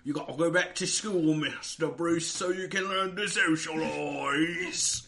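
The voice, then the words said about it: Put-on Alfred butler character accent. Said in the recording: “like the 23rd Alfred accent you've done”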